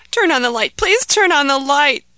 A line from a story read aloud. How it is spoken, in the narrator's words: begged Ahmed